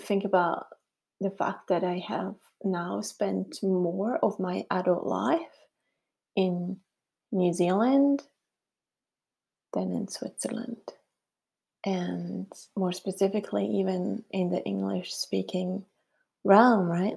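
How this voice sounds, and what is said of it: Swiss German accent in English. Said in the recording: “I can't get rid of my accent ... Swiss German, is what my native tongue would be”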